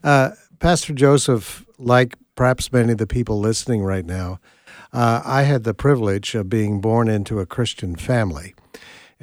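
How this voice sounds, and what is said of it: Nova Scotian Canadian accent. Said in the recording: “I better explain my accent first ... I grew up in Nova Scotia, Canada.”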